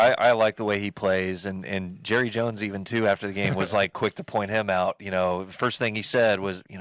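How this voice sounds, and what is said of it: Usual voice. Nothing is said of it.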